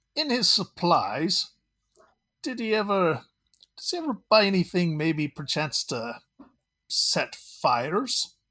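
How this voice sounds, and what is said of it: Inconsistent put-on character accent. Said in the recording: “Milo's accent is all over the place”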